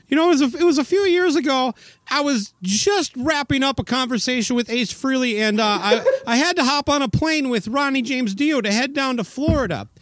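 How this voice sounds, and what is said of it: Impression of Eddie Trunk. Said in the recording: “do an impersonation of Eddie Trunk”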